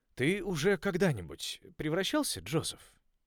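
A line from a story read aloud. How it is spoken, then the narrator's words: Sympathetic question. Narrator (Russian): спросил мистер Элвуд характерным сочувственным тоном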